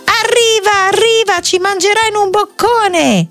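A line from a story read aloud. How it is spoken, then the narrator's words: Shrill scream. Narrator (Italian): E Dick strillò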